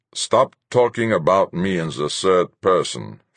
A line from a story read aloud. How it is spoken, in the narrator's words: Fuchs grumbled